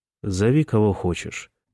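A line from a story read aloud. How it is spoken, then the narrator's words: Very calm voice. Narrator (Russian): предложил он очень спокойным голосом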